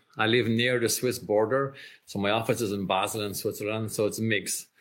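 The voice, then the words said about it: Mixed accent with Irish trace. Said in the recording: “where's the accent from ... I'm actually Irish ... the accent is mixed ... I still kept a trace of the Irish brogue”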